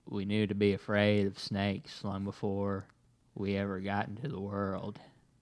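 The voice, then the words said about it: Matthew McConaughey impression. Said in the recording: “do a McConaughey impression? ... I think that was a good McConaughey. ... That was pretty good.”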